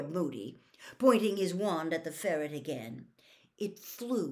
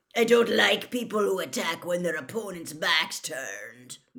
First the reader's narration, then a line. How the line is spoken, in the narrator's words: growled Moody